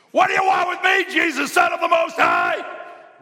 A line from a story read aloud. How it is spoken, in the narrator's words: he shouted at the top of his voice